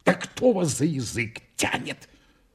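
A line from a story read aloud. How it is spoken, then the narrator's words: Lawyer's whisper. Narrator (Russian): прошептал адвокат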